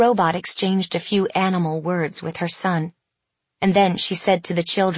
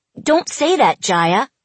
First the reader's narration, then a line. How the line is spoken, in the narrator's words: cried her brother